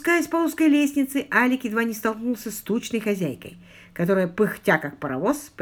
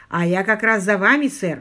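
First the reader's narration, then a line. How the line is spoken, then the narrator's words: Breathless. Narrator (Russian): выдохнула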